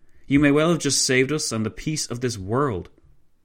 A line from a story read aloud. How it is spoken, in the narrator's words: von Leto Vorbeck exclaimed